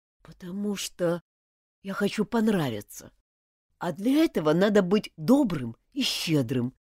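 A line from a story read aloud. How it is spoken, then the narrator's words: Quiet. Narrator (Russian): тихо сказал Мартин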